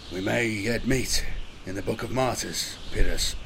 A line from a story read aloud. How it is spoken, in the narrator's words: Corpus muttered grimly